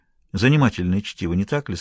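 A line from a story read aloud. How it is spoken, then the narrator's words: Almost calm question. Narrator (Russian): спросила она почти спокойно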